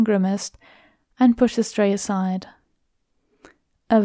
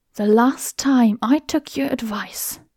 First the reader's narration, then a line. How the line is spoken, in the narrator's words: he hissed, dropping his voice to a low whisper